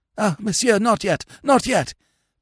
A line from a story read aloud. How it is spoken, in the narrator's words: panted the priest